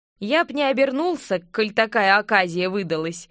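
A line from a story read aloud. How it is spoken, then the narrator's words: Snorting. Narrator (Russian): хмыкнул стражник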